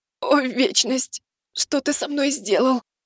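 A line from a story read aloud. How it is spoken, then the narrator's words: Moan. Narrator (Russian): простонала она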